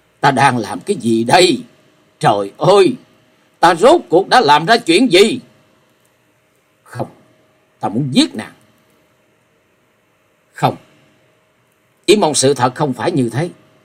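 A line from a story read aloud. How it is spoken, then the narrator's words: Frantic loud scream. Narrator (Vietnamese): Hắn cuồng loạn hét lớn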